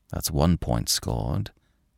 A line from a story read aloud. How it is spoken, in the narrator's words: he muttered